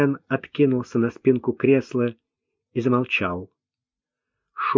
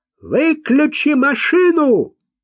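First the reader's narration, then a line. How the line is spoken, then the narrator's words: Shouting. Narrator (Russian): крикнул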